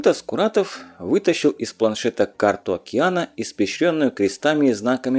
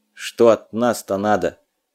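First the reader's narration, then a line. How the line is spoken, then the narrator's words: Gloomy question. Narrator (Russian): мрачно поинтересовался Малюта, с молодых ногтей не выносивший туманные намеки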